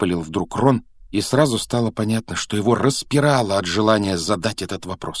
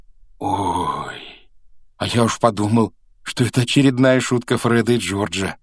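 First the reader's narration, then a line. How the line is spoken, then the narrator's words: Relieved exhale. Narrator (Russian): выдохнул Рон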